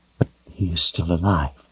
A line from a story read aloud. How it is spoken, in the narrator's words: she whispered in a broken voice